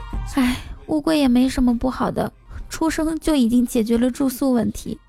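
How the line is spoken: Sighing remark. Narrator (Chinese): 青青感叹道

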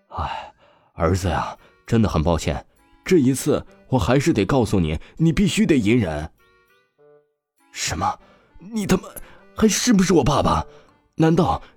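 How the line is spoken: Wry, sighing. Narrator (Chinese): 刘家家主苦笑了起来，叹息说道

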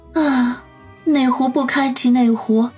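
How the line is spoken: Sighing. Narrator (Chinese): 杨思思先是一愣，随即叹口气说道

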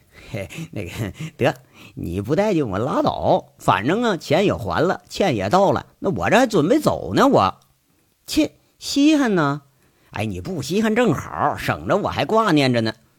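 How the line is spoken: Smiling, softened tone. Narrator (Chinese): 杨伟也不忍心再逗人家了，这才笑一笑，缓了一句

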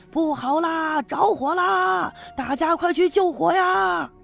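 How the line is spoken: Loud shout. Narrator (Chinese): 有人大声的喊

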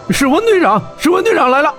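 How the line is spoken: Several voices shouting. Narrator (Chinese): 几个人影纷纷挥手喊道

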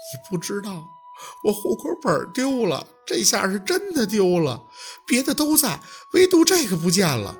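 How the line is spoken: Crying. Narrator (Chinese): 薛若君哭着

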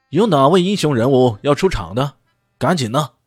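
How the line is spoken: Loud shout to crowd. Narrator (Chinese): 主持人大声的冲着台下喊道

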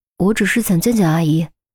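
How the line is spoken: Weak, low voice. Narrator (Chinese): 语气又弱了下去，撇过头低声说

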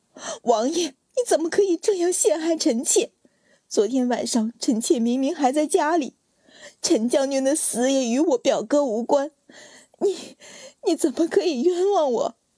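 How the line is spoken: Crying. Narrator (Chinese): 阮云欢哭着说

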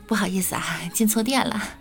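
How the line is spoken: Hurried laugh. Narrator (Chinese): 我忙着笑

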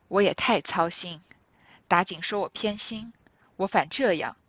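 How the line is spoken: Sighing. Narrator (Chinese): 贾母叹道

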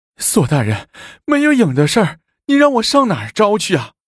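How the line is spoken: Whiny, defensive. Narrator (Chinese): 于宝家哭丧着脸辩解道

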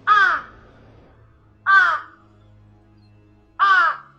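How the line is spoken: Crow cawing. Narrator (Chinese): 乌鸦发出呀呀的叫声

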